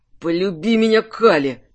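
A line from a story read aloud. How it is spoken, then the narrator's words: Moaning. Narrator (Russian): застонал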